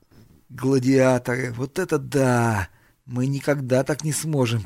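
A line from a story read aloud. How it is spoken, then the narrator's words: Sad, matter-of-fact. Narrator (Russian): печально констатировал Айвен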